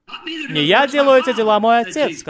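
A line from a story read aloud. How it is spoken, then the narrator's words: Plain. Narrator (Russian): сказал Иисус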